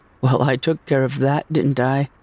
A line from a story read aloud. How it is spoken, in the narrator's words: I said with a little laugh